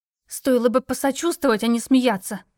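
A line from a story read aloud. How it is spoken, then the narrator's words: Hiss. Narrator (Russian): прошипела я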